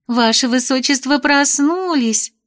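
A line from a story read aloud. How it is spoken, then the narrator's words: Joyful chirping chorus. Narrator (Russian): радостно защебетали они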